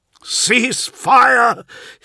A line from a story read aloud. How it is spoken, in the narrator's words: shouted Forex